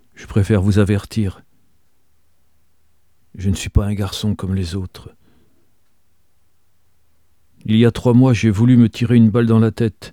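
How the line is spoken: Sad and proud. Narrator (French): dit-il tristement et fièrement

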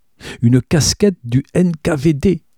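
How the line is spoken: Triumphant exclamation. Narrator (French): s'exclama-t-il, triomphant

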